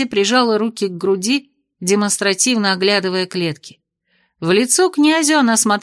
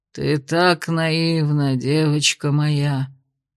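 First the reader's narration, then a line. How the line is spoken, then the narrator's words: Sighing. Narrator (Russian): Вздохнул отец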